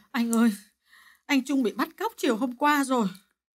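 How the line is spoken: Tearful, about to cry. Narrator (Vietnamese): Bà Hà mếu máo nói

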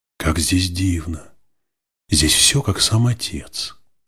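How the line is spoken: Whisper. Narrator (Russian): прошептала Наль

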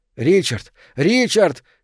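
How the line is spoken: Anguished shouting. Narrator (Russian): кричал Кёниг голосом, полным страдания

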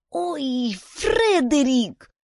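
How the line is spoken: Female moan. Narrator (Russian): застонала Юнис

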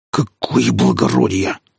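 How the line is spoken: Hissing. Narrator (Russian): зашипел старшина

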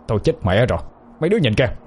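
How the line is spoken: Old man's sudden cry. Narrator (Vietnamese): Ông Tư chợt la lên

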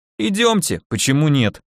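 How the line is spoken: Amused snort. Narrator (Russian): хмыкнул учитель

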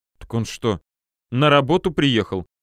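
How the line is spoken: Displeased snort. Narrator (Russian): недовольно фыркнула Варя

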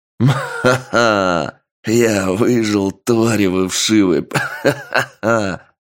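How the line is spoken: Malicious laugh, then coughing. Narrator (Russian): Мужчина злобно оскалился и рассмеялся, но почти сразу сильно раскашлялся

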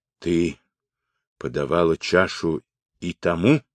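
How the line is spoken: Hoarse, unfamiliar-voiced question. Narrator (Russian): хрипло, не узнавая своего голоса, спросил

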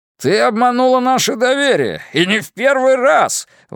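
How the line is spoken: Yelling. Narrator (Russian): вопил он

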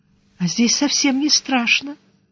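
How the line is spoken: Hushed, quiet speech. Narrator (Russian): Притихшая, она тихонько сказала

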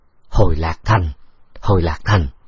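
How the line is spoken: Muttering. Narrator (Vietnamese): Vương Thế Sung ... lẩm bẩm nói

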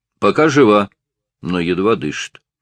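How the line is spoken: Grim report. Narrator (Russian): мрачно доложил лейтенант

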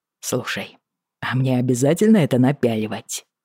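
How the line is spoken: Amused snort. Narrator (Russian): Бриана весело фыркнула

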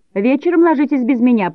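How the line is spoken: Shouted from afar. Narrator (Russian): прокричала она, находясь уже далеко впереди нас

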